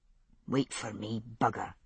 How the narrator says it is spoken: he said under his breath

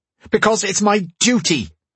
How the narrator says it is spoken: the prince shouted

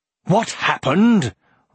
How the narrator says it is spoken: roared the old man

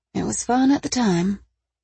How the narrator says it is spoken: she muttered

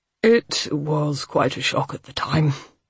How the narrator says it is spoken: Abel said, rather wearily

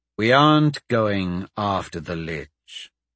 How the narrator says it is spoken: Dante said slowly

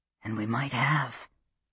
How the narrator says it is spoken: he whispered in her ear

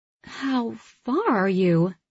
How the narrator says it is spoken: Joey asks, her voice wavering

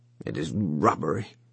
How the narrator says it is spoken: he muttered, unwilling

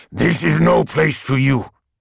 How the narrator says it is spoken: it had said in a halting growl

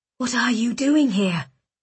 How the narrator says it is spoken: Rook whispered

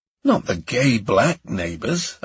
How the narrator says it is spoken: I gasped

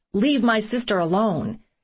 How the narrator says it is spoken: My brother yelled out

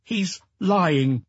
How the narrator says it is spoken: His head hanging, Jean-Paul said firmly

